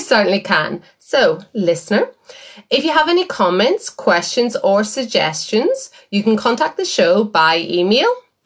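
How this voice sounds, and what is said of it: Northern Irish accent. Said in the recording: “in Northern Irish, the word Twitter is hard to hear in my accent.”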